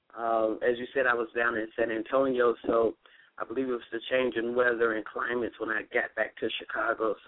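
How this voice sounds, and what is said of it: Slightly raspy voice. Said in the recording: “I'm battling just a slight cold or allergies or something this morning ... my voice is a little raspy”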